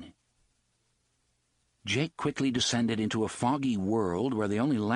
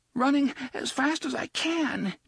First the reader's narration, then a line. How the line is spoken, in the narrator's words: Jake gasped